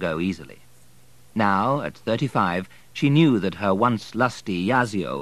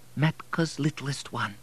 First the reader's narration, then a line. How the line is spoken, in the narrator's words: whispered tenderly